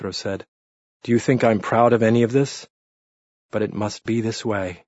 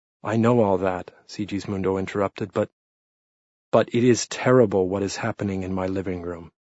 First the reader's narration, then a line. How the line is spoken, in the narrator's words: Pietro said sadly